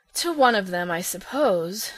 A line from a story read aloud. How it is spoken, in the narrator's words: sighed Phil